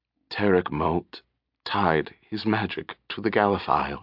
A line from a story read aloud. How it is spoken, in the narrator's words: he whispered, his voice dry and cracked with pain